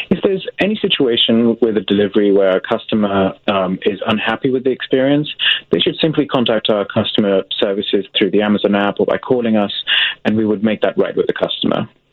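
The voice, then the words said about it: Speaker with a noticeable accent. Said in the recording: “good luck with that accent”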